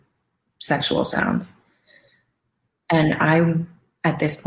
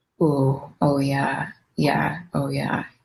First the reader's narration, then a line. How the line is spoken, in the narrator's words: started making like moaning sounds